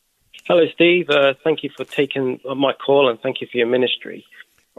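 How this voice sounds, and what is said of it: English accent. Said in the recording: “You're the Texan with the English accent”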